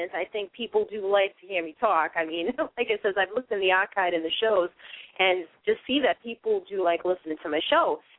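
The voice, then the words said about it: Boston accent. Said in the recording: “I'm originally from Boston, Massachusetts, and as you hear me talk ... they do tend to think I might be from Boston, like Brooklyn or Queens ... I am from Boston, and I'm not giving up the accent.”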